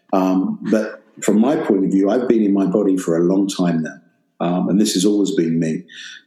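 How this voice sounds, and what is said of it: English accent. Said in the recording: “I'm a black male from Great Britain with an English accent.”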